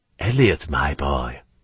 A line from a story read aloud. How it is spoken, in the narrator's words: he said in a soft voice